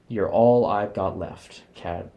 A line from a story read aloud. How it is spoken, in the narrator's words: he says